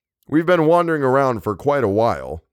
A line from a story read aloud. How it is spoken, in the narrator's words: the doctor said